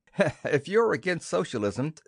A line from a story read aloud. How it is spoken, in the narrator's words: said Elizabeth with a laugh